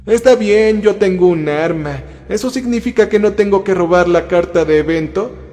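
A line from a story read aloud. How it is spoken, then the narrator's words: Whining. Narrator (Spanish): gimió Micaela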